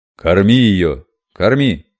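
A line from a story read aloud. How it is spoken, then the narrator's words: Bark, lord. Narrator (Russian): рявкнул лорд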